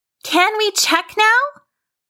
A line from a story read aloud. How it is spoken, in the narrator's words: one of my daughters asked excitedly